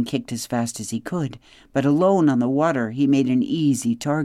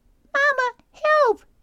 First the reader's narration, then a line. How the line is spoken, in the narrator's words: squeaked Brightbill